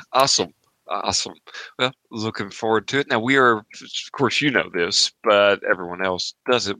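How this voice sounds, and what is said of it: Appalachian accent. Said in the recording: “The Appalachian accent does forgive me for quite a bit of my mispronunciations”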